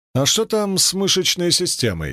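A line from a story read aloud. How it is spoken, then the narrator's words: Plain. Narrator (Russian): спросил я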